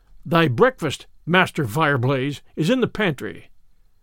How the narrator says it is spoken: answered

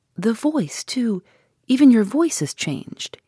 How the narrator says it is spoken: he said anxiously

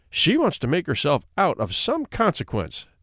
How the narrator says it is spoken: said the Baroness

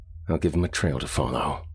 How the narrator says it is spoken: muttered Rainsford

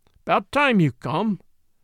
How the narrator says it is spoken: growled the god of the car

